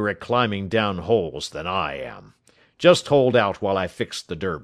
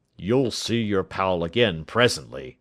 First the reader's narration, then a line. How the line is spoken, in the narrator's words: said Jones